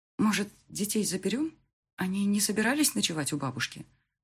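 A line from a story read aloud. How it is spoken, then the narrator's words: Quiet. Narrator (Russian): Негромко обратилась я к нему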